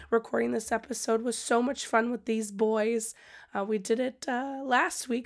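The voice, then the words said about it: Strained voice, sounds unwell. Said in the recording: “As you can hear, my voice is not really doing so hot. I think I'm getting sick”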